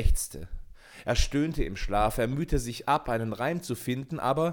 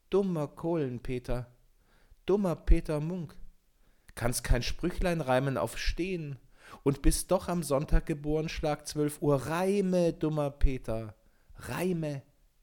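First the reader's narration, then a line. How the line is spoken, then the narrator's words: Soft whisper. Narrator (German): eine zarte Stimme flüsterte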